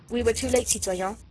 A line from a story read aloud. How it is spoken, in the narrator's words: the soldier said